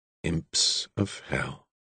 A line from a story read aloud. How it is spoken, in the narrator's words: murmured